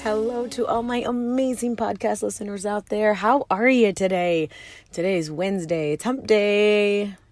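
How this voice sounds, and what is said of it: Very hoarse voice. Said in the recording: “my voice is crazy. I have a very hoarse voice”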